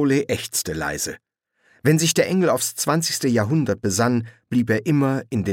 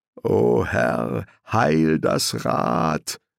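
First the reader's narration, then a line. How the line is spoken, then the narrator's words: Sarcastic mutter. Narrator (German): raunte sarkastisch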